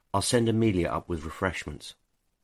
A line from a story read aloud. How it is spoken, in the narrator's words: he forced his voice to remain calm, and he said